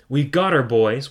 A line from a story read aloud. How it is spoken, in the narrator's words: one of them shouted